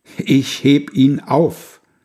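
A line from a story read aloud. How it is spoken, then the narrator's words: Loud call. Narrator (German): er ruft's mit lauter Stimme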